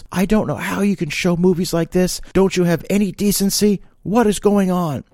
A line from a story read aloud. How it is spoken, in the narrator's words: The lady then screamed at the top of her lungs